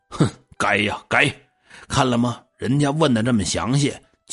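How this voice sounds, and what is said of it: Muttering in a low voice. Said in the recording (Chinese): “小声嘀咕”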